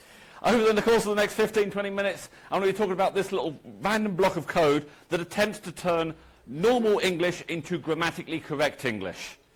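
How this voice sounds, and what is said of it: English accent. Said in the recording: “As you can probably tell from my accent, I'm English.”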